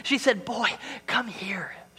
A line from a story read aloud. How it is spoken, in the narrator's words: she whispered